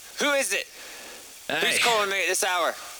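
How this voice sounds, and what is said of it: Put-on Scottish accent drifting Irish. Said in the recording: “That's kind of a Scottish accent... Let's go get Scottish... I'm Irish now, apparently. I gotta get that Scottish there.”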